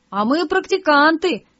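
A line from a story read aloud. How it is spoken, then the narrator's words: Group laughing reply. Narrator (Russian): хохотом ответили практиканты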